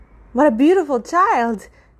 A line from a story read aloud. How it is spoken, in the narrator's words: she exclaimed again